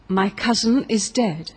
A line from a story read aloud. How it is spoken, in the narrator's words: exclaimed he